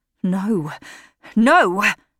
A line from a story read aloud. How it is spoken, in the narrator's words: he cried